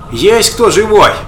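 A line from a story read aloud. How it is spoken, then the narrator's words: Desperate distant shout. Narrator (Russian): отчаянно закричала откуда-то Зиночка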